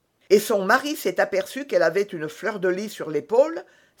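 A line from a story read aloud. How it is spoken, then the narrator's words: Exclaiming. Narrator (French): s'écria Porthos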